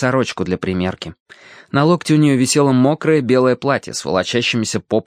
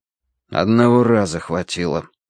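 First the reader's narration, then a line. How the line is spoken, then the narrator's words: Gloomy objection. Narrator (Russian): возразил Данворти мрачно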